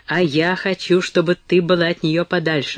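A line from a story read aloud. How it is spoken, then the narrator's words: Angry objection. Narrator (Russian): возразил злобно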